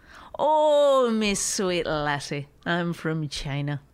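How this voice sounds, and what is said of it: Put-on Irish accent. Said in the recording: “So you're going to do everything in an Irish accent?”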